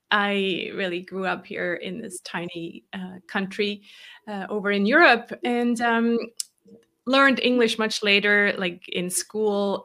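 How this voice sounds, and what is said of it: American-sounding English accent. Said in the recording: “you sound American.”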